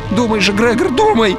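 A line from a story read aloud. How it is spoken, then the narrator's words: Pleading. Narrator (Russian): взмолился Арнольд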